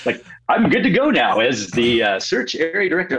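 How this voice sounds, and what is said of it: Switches into a radio announcer voice. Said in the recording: “I switched in radio voice.”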